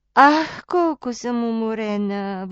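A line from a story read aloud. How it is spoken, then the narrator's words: Sighing. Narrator (Bulgarian): въздъхна тя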